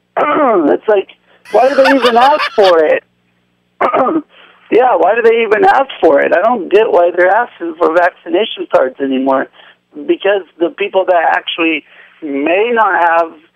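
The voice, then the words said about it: Mumbling, unclear speech. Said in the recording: “you're mumbling ... You're mumbling.”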